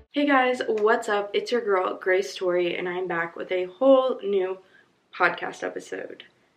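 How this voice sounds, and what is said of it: Hoarse, strained, fading voice. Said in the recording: “my voice sounds a little eh, it's because my allergies are bad, so I'm low key losing my voice ... that's why it sounds a little, mm, and I'm like clearing my voice every so often or clearing my throat because it's hard to talk”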